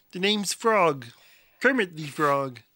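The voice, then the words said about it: Kermit the Frog voice. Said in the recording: “best Kermit impression”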